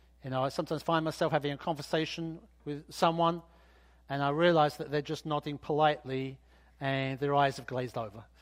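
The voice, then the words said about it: Accented, mumbled speech. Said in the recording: “because of my accent and probably because I mumble”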